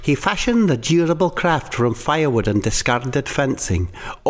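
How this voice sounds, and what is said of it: Strong put-on accent. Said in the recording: “Is my accent going? ... No, it's really good, right. Strong.”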